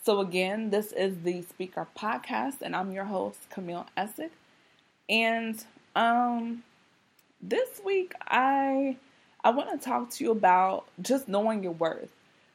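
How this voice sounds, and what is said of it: Rough, raspy voice. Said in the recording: “my voice sounds raspy ... my throat is feeling itchy ... my voice is sounding rough or raspy”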